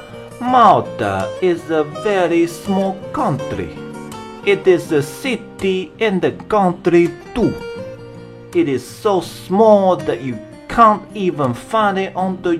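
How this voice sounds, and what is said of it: Put-on Italian accent. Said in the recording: “the Italian accent ... So in real life, they probably would sound like this”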